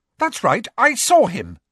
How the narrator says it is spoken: she said fiercely

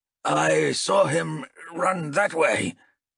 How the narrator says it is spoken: Toll grunted, making his voice a low growl

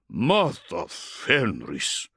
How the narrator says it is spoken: Bryngar breathed at what he had just witnessed

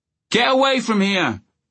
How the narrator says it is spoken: he shouted at the diggers

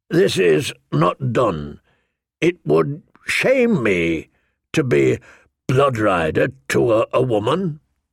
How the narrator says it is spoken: he said hesitantly

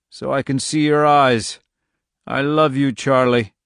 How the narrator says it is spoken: he croaked

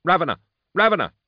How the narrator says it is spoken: Carl Vox anxiously

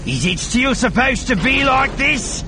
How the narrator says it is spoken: Bossen shouted

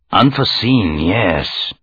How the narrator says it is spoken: he murmured

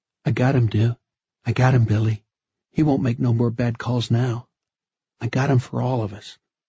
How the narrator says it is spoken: whispering to himself

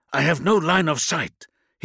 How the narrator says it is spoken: hissed Mugarna

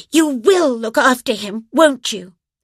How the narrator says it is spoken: Jo said firmly

